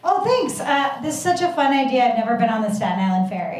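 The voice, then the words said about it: Put-on sexy voice. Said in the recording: “I'll use my sexy voice.”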